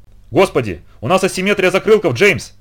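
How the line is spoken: Almost yelling. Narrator (Russian): почти заорал Роб

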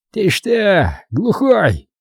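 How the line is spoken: Criminal's harsh bark. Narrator (Russian): рявкнул преступник

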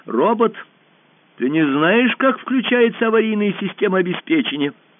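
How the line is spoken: Shouting. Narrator (Russian): Алиса крикнула

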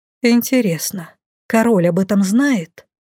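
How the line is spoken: Sigh. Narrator (Russian): вздохнула я

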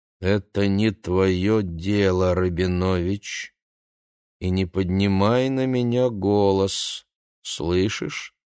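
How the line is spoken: Slow speech. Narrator (Russian): медленно сказала она

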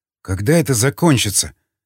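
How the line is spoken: Sighing, to himself. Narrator (Russian): вздохнул Николай, адресуя вопрос самому себе

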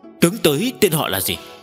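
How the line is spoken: Alarmed shouted question. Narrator (Vietnamese): Thầm kinh hãi trước sức mạnh kinh người, quát hỏi

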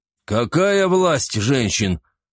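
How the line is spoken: Confused question. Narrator (Russian): растерянно переспросил Торвал

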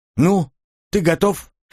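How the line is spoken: Abrupt. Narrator (Russian): резко свернул разговор Оливер

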